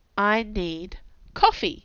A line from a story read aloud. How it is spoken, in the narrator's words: I said in a calm, steady voice